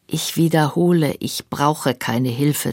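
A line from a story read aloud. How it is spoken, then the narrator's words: Plain. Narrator (German): sagte sie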